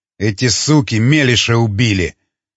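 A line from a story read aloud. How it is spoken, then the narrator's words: Growling. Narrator (Russian): прорычал Репасха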